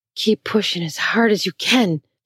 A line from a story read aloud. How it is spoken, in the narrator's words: he hissed